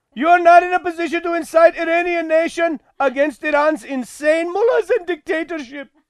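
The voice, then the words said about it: Hackneyed put-on Pakistani accent. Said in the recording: “That's Pakistani. ... It is Pakistani. ... that's a hackneyed Pakistani accent.”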